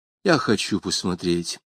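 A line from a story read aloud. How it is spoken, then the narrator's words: Whispered command. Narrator (Russian): шептом скомандовала Джонси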